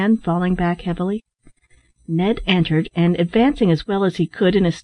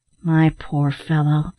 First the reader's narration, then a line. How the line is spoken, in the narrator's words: said Ned in a soothing tone